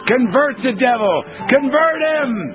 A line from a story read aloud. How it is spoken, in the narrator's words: Dobson screams